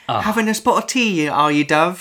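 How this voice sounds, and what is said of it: Deliberately bad put-on British accent. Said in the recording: “Michael Keaton doing his British accent... I love it when Americans do shitty British accents intentionally.”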